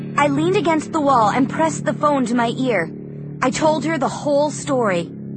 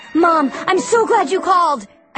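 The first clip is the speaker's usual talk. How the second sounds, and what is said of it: Trembling, shaky voice. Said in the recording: “in a trembling voice.”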